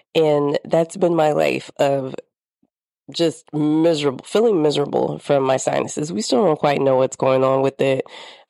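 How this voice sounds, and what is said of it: Congested, nasal voice. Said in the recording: “there's the loss of voice. There's the coughs. There's the congestion ... my voice is a little off. ... I know I sound nasally”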